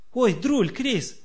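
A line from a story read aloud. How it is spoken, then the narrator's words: Happy child's shout. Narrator (Russian): блестя счастливыми глазами крикнул малыш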